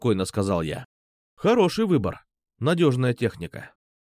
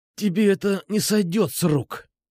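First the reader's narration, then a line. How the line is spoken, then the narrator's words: Hissing. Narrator (Russian): прошипел Петрушка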